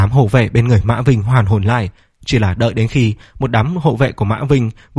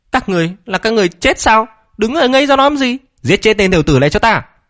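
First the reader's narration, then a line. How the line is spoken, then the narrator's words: Shouting. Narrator (Vietnamese): Mã Vinh hét lên với một đám hộ vệ bên người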